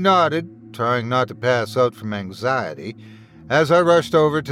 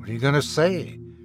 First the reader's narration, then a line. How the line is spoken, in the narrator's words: Luke muttered